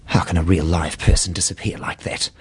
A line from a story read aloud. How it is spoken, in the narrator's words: She muttered